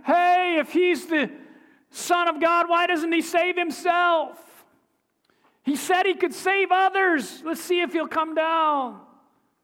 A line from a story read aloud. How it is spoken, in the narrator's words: making fun, hollering